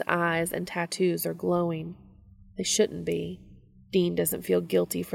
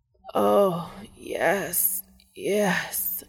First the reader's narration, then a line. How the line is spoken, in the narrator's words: Castiel moans, still writhing on Dean's lap